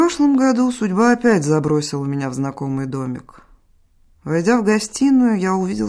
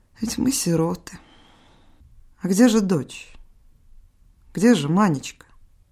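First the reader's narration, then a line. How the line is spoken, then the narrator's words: Sighing. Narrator (Russian): она вздохнула и сказала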